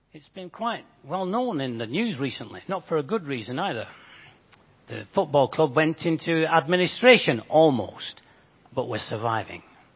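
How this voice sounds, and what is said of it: Bolton English accent. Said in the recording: “You guess from my accent, I'm not from these parts. ... I actually come from Bolton.”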